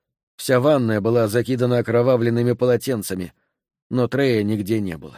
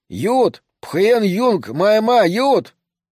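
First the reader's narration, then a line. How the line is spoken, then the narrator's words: Shouting. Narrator (Russian): Я слышал, как он кричал водителю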